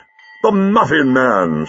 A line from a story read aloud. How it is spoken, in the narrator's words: said the doctor happily